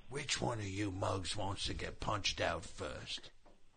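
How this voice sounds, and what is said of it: Imitates another person's voice. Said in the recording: “It's a pretty good impression.”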